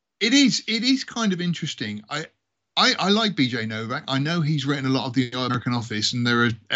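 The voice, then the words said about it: British English accent. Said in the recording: “I do speak the Queen's English ... I only do the accent to attract girls”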